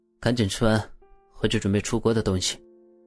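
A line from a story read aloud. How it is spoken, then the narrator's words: Cold. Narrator (Chinese): 冷冷的说了一句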